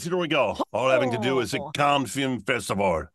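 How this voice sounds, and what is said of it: Exaggerated fake French accent. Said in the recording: “Which I'm going to read in outrageous French accents ... why are you reading it in a horrible French accent?”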